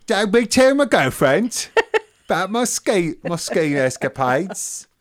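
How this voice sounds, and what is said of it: Put-on cockney British accent. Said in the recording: “my impression of the British ski guy ... He was more posh than that ... He's a cockney.”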